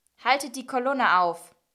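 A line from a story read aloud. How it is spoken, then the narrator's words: Calling out to guards. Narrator (German): rief den Wachen zu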